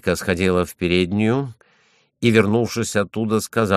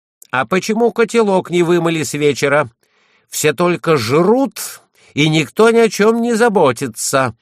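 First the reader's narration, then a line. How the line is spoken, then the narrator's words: Irritated shout. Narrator (Russian): Хозяйка раздраженным тоном крикнула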